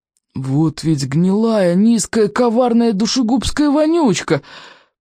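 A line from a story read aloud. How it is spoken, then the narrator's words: Through clenched teeth. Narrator (Russian): процедил Стоик сквозь стиснутые зубы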